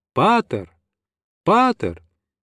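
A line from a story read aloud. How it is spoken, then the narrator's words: Loud shouting in all directions. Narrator (Russian): принялись громко кричать во все стороны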